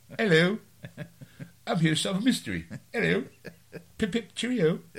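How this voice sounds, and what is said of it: Put-on British accent. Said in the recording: “That's my British accent”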